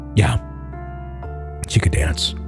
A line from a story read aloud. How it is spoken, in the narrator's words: Mark answered softly